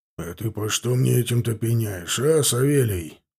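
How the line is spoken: Displeased grumble. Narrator (Russian): буркнул недовольно Сошников

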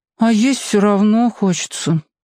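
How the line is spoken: Sad. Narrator (Russian): сказала печально

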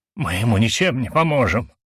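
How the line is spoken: Angry whisper. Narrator (Russian): зло прошептал Шелик

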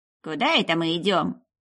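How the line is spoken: Displeased grumbling. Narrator (Russian): послышалось Алистеру недовольное ворчание Дыргина

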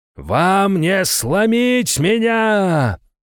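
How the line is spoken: Roaring emperor. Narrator (Russian): проревел император

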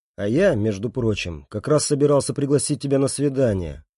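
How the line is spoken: Softer. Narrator (Russian): произношу я более мягко

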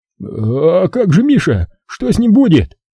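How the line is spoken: Worried whining, eldest child. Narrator (Russian): Запоздало запереживал, заскулил старшенький

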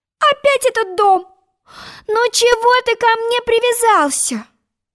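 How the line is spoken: Pleading. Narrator (Russian): взмолилась Алиса

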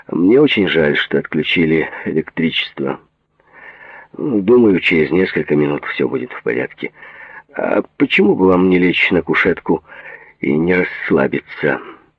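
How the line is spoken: Deep breath, loud. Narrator (Russian): Глубоко вздохнув, Джад громко сказал

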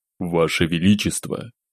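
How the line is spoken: Deep, calm, untroubled. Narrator (Russian): Голос прозвучал глубоко и спокойно, без следов тревоги

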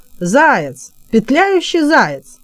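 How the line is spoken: Mocking shout. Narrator (Russian): Шериф крикнул насмешливо

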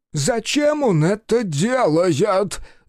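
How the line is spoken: Yelled. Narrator (Russian): завопил Гелленбург

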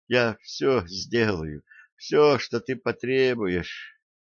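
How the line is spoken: Moaning. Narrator (Russian): простонала

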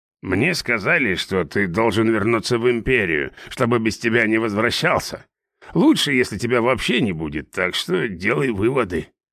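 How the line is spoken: Plain. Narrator (Russian): сказал наставник

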